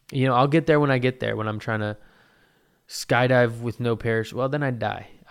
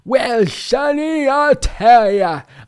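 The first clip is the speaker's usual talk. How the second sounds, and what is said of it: Old person voice. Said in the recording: “how do you do an old person? How do you do an old person voice?”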